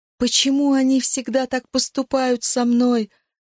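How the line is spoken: Sobbing. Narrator (Russian): рыдала

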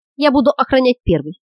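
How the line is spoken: Plain. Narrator (Russian): сказала Линга

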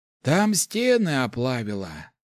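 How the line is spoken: Sighing. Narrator (Russian): вздохнул Некс

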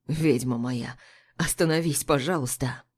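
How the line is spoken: Trembling, hoarse, agitated voice. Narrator (Russian): Его голос подрагивает и хрипнет еще сильнее, выдавая волнение

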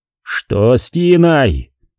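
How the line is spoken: Angry yell. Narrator (Russian): заорал на него Картер

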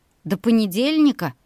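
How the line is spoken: Puzzled shout. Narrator (Russian): крикнула ей озадаченная Олеся

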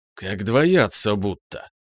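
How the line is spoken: Dejected sigh. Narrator (Russian): вздохнул Иванов понуро

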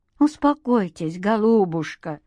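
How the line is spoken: Gentle. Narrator (Russian): ласково сказал Леонид Иосифович

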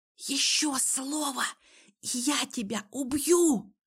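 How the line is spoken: Hissed into ear. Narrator (Russian): прошипела я ему в самое ухо

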